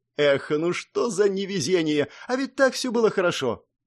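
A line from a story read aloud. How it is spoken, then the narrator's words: Resigned sorrowful sigh. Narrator (Russian): Обреченно горестно вздохнула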